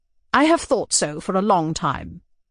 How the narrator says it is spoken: answered the princess

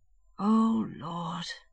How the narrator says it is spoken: he murmured, and sighed deeply

